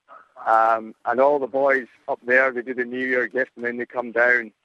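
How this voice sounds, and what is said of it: Scottish accent. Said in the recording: “my accent is a bit weird... my hometown, Edinburgh”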